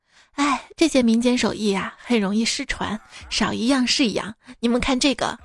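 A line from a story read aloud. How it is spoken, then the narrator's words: Sighing lament. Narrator (Chinese): 有个游客跟其他人感叹道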